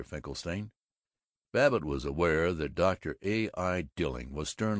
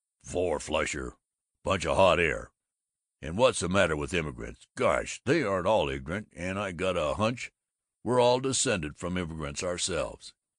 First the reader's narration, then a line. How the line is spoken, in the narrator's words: the dissatisfied Babbitt grumbled